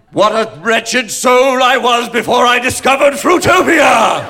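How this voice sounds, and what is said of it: Big overblown British accent. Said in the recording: “in a big overblown British accent”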